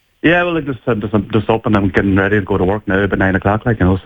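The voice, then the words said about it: Donegal Irish accent. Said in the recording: “I'm just listening to your accent there. You're not originally from Galway, are you? ... I'm from Letterkenny and Donegal”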